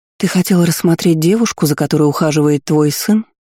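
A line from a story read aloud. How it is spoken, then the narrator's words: Calm question. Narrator (Russian): Спокойно спросила второго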